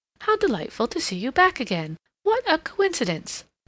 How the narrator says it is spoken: exclaimed

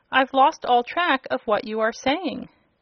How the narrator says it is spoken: exclaimed Dorothy, interrupting the speech

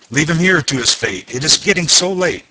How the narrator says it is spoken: the bellman exclaimed in a fright

